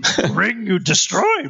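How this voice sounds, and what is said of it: Yoda impression. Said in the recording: “I almost did a Yoda impersonation when I meant to do a Gollum impersonation ... Wrong impersonation.”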